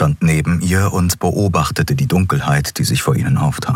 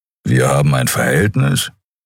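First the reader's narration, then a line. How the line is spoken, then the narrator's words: Serious, earnest question. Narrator (German): Die Frage war ihr zu wichtig, um darüber zu lachen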